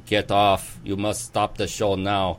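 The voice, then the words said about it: Poor put-on German accent. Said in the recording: “my horrible rendition of a German accent”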